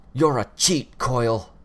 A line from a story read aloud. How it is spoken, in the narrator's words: Bitch barked